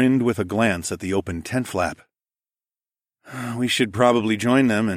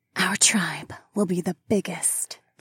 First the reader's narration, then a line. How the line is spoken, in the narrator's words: the saber-toothed woman whispered